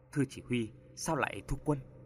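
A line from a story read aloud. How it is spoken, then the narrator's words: Soldier's hurried whisper. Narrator (Vietnamese): Tên lính lúc nãy vội thì thầm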